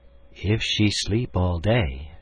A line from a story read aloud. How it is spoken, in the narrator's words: she said mournfully